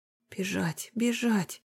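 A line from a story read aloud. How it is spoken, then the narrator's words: Soundless whisper. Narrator (Russian): беззвучно шептали губы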